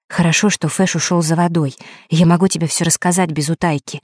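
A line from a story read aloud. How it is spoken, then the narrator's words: Quiet. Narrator (Russian): тихо сказала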